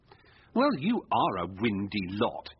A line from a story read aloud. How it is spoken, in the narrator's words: said scornfully